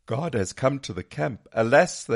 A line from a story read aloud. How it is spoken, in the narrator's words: they cried